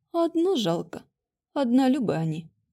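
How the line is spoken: Silent inner sigh. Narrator (Russian): мысленно вздохнула ведьма

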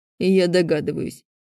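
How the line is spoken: Creaky voice. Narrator (Russian): скрипучим голосом произнес Глеб

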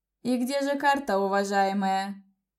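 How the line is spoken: Mocking. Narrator (Russian): Насмешливо нахмурился господин Блэкстоун

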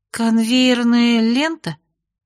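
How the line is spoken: Drawn out, half-questioning. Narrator (Russian): полувопросительно протянула я

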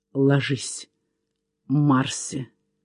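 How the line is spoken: Muffled whisper. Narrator (Russian): глухо прошептал

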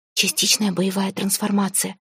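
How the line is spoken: Whispered. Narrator (Russian): шепнула Арейна

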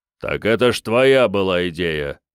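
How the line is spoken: Deep bass voice. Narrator (Russian): пробасил маэстро

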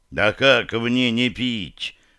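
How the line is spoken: Muffled hateful growl. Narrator (Russian): глухо рыкнула Ренни с неприкрытой ненавистью в голосе

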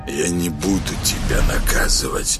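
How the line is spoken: Hoarse rasp, sore throat. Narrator (Russian): прохрипел тот, потирая горло

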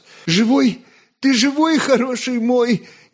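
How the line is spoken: Sobbing speech. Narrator (Russian): Не заметив, как и сам всхлипнул, молвил отрок

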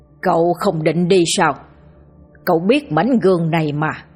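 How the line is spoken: Harsh, clipped voice. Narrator (Vietnamese): Ông gằn giọng nói

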